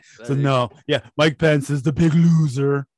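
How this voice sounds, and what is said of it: Imitates another person's voice. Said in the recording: “It's not the best impersonation.”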